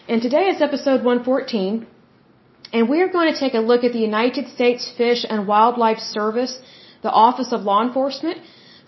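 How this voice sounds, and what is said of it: Hoarse, strained voice. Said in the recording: “Sorry, I'm losing my voice.”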